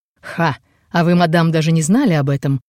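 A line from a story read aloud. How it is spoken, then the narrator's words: Light laughter. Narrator (Russian): слегка захохотал в сторону спальни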